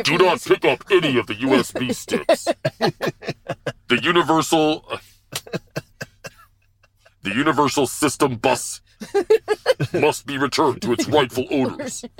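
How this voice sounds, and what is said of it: Robotic RoboCop-style character voice. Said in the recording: “do the RoboCop voice”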